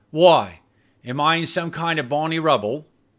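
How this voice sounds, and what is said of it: Cockney accent. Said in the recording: “not even trying to cover up her Cockney accent”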